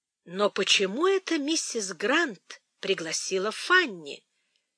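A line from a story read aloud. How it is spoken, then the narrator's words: Plain. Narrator (Russian): сказала леди Бертра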